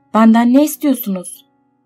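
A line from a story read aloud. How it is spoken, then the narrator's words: Full-strength shout. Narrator (Turkish): diye tüm gücüyle bağırdı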